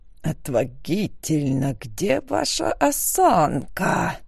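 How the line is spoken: Hissing from behind. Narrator (Russian): зашипели позади

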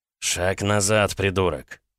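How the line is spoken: Gruff mutter. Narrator (Russian): в усы буркнул он

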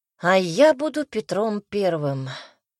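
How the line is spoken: Sighing. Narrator (Russian): вздохнула

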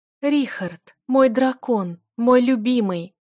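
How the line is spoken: Passionate moaning girl. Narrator (Russian): стонала девушка, полностью поглощенная страстными движениями моего мужа

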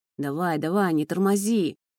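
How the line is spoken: Growled. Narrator (Russian): рычал

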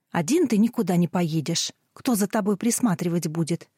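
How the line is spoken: Angry mother. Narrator (Russian): сердито сказала мама

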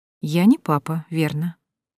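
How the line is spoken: Soft. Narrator (Russian): Мягко замечаю

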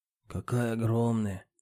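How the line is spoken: Muttered. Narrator (Russian): пробормотал Леонид Гоцман

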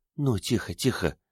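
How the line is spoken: Soothing whisper. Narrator (Russian): прошептала Риос

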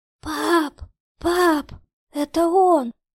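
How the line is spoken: Sobbing, hoarse. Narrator (Russian): Рыдания Кати смешались с хрипом

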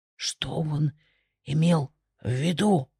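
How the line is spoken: Whispered question. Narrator (Russian): шепотом спросил один из придворных

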